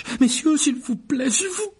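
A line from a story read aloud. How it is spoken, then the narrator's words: Exclaiming. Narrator (French): s'exclama un vendeur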